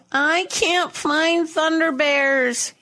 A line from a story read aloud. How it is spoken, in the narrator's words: he whined